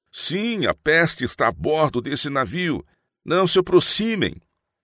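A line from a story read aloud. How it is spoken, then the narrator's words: Crowd shouting from above. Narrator (Portuguese): Uma multidão de vozes gritou outra vez do topo das velas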